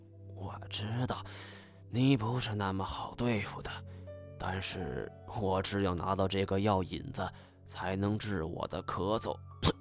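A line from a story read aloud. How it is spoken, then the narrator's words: Coughing, low voice. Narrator (Chinese): 马洛什咳嗽两声，声音放低道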